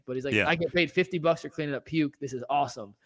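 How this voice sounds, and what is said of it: Put-on Southern accent. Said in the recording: “I don't know why I'm doing a Southern accent”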